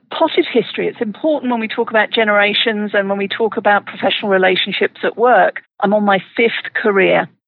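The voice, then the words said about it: British accent. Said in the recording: “as you can tell from the accent, I'm not originally from Colorado ... I'm originally from the UK”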